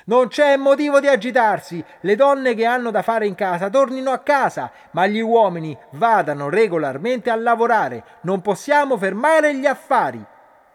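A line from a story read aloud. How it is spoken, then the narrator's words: Women shouting from below. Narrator (Italian): le donne da sotto iniziarono a gridare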